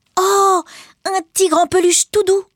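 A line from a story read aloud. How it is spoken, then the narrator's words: She exclaims. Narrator (French): s'exclame-t-elle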